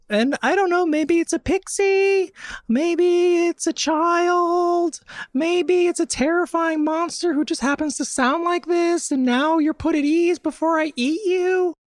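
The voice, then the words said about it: High falsetto voice. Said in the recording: “You can do a high falsetto. This is just my voice in a falsetto.”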